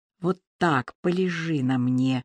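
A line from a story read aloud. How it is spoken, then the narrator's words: Whisper. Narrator (Russian): шептал он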